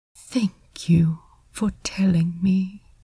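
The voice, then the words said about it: Quiet, soft voice. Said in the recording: “in a quiet voice.”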